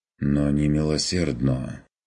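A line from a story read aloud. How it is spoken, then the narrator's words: Quiet mutter. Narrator (Russian): пробормотал Курт тихо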